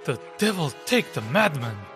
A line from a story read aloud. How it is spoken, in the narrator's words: murmured Monsieur de Treville